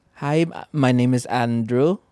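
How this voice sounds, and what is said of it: Imitated Filipino accent. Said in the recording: “you speaking in a Filipino accent... That's really good... Local, right?”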